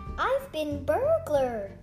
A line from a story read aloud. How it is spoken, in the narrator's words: exclaimed Alfi